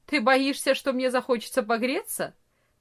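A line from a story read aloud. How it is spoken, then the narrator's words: Mocking reply. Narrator (Russian): насмешливо ответил Франц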